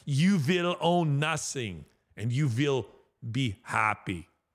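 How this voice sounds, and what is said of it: Put-on German accent. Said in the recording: “That sounded more like Arnold Schwarzenegger, but anyway, that's my German accent. It's the best I can do.”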